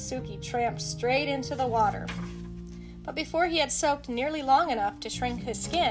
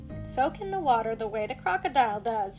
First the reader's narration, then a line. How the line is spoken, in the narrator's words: laughed the parrot